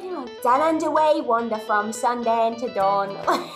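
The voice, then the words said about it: Singing in a poor Australian accent. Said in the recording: “Did the little song in a terrible Australian accent”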